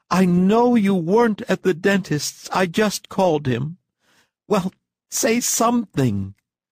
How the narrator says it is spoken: cried his wife distractedly

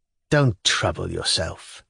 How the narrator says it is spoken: he muttered contemptuously

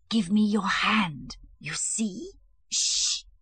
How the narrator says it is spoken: hissed

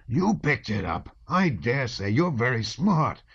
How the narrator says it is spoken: one of them shouted hoarsely

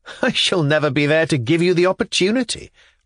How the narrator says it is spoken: replied Velchaninov with a laugh

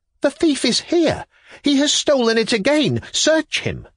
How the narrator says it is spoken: I cried

